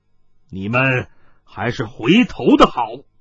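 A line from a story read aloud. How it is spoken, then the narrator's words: Stern voice from behind. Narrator (Chinese): 突听身后一人厉声说道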